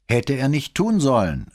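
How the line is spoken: Another forensic technician interrupting. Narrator (German): rief ein anderer Kriminaltechniker dazwischen

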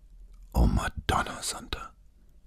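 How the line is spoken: Whisper behind hand. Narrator (German): flüsterte sie hinter der vorgehaltenen Hand

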